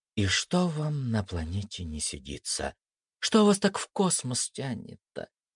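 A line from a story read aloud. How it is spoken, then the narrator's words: Thoughtful young woman. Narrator (Russian): задумчиво девушка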